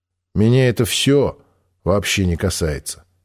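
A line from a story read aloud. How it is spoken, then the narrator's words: Even voice. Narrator (Russian): сказал я ровным голосом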